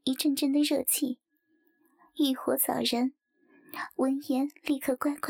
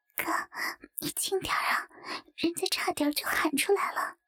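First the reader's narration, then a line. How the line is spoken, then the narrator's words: Soft voice. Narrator (Chinese): 轻声称道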